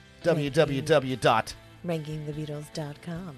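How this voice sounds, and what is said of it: Smooth radio announcer voice. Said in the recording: “I'm giving you my radio voice ... It's very like NPR though.”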